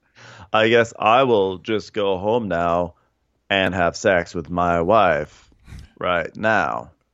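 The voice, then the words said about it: Slow, Maury-like impersonation. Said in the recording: “That was my own impersonation. ... it's like a slow Maury.”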